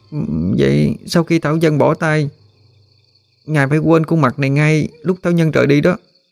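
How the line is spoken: Slightly trembling, hesitant suggestion. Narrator (Vietnamese): Hân hơi run run, cuối cùng mới đề nghị

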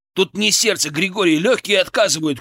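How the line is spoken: Shout. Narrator (Russian): крикнул я

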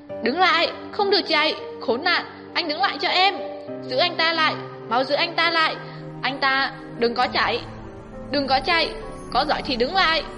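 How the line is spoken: Woman shouting loudly. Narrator (Vietnamese): một tiếng phụ nữ hét lớn

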